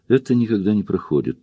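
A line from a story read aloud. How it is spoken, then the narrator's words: Quiet. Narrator (Russian): тихо сказал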